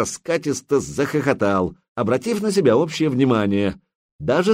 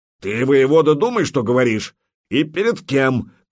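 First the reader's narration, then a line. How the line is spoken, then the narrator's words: Shouted. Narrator (Russian): крикнул Путята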